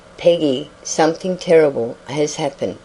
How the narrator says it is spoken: he faltered, uncertain of his course

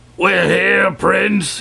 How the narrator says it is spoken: yelled Wul Takim

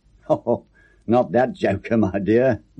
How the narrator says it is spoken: laughed Charlie

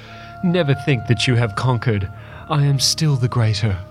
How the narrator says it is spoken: she cried

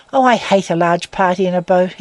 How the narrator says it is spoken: he said, almost irritably

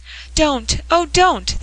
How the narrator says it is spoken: they cried, and a common trouble overwhelming them

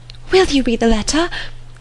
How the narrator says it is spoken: cried Harriet

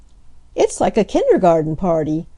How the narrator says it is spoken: laughed Nan

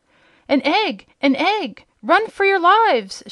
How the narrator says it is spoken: shouted the captain of the gnomes in a voice of horror

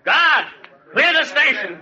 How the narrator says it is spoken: He shouted

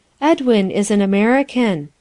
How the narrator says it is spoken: continued Gwendolen, half timidly

